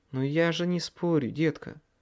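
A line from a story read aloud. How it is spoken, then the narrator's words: Sigh. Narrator (Russian): вздохнула Леа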